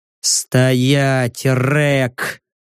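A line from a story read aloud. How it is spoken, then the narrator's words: Gruff mutter. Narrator (Russian): буркнул я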